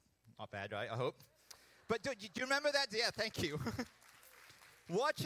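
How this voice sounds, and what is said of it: Usual voice. Nothing is said of it.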